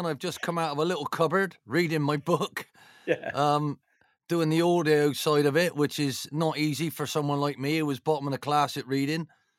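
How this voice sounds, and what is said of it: Broad Bristolian English accent. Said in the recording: “your distinctive accent... I'm still as broad a Bristolian as I've ever going to be”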